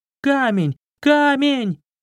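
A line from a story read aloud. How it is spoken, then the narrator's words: Shouting. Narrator (Russian): Воришка закричал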